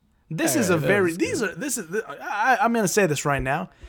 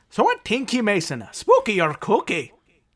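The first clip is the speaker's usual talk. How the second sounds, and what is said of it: Caricatured Irish accent. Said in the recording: “I can do it in Irish here ... My Irish accent is very much a caricature”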